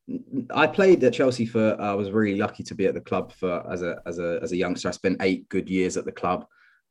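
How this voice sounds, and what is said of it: Liverpool English accent. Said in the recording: “I was brought up a Liverpool fan, as you can tell, obviously, by the accent.”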